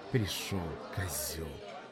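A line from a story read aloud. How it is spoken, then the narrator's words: Spat through teeth. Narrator (Russian): процедила Ксюха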